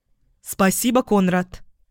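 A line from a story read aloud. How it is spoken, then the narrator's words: Shouted over shoulder, running. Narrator (Russian): крикнула я через плечо, уже бегом направляясь к дому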